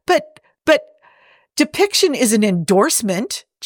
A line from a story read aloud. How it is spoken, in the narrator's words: Jim sputtered